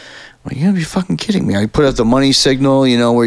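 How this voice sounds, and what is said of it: Usual voice. Nothing is said of it.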